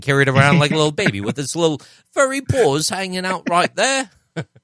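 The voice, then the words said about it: Put-on accent. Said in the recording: “why do you always go to that accent?”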